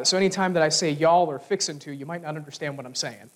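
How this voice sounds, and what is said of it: Southern American English accent. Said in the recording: “obviously I'm Southern, so I speak Southern English.”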